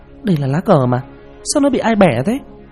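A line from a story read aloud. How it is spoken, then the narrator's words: Sudden exclamation. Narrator (Vietnamese): Hoa thốt lên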